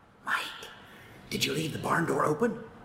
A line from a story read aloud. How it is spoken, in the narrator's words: He whispered